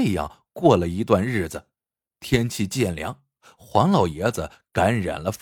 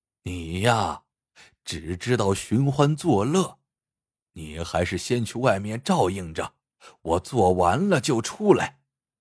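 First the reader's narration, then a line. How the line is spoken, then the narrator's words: Old man sighing. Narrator (Chinese): 黄老爷子叹了口气，说道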